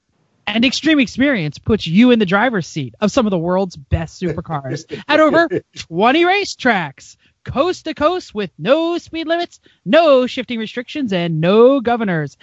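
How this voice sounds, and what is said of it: Upbeat commercial announcer read. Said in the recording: “I got to hear Joe Moore do the read of the commercial. And I'm just going to do an impression right now. It was what we call an upread.”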